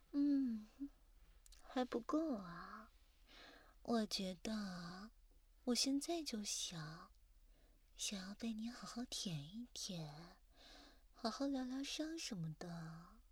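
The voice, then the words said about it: Whispering softly close to the ear. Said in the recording (Chinese): “这样在耳边小声说话”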